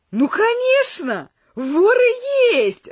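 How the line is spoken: Joyful reply. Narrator (Russian): радостно ответил мой новый знакомый

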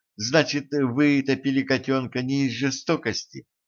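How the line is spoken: Timid question. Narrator (Russian): робко спросила Женька

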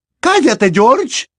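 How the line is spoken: Mother snapping. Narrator (Spanish): le espetó su madre

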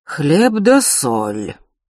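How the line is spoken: Strange fairy-tale voice. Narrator (Russian): странно сказал Анчутка мне в затылок, незнакомым сказочным голосом

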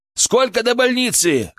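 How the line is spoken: Shouted. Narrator (Russian): крикнул я водителю

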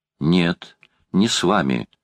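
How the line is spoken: Boy, decisive. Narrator (Russian): решительным тоном заявил мальчик

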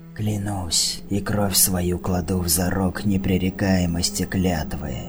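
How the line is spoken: Hissing. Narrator (Russian): зашипел Алан

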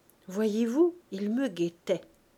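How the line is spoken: Plain. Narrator (French): dit-elle à Florent

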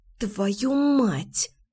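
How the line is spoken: Angry hiss. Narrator (Russian): в сердцах прошипела

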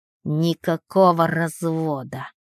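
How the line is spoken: Through gritted teeth. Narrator (Russian): цедит сквозь зубы

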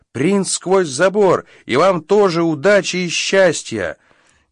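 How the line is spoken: Shouted. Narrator (Russian): крикнул

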